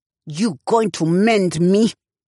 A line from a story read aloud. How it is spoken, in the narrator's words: She growled at him